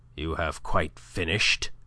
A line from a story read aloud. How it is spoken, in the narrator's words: he said harshly